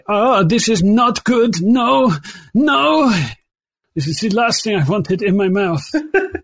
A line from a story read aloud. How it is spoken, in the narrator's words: moaning, say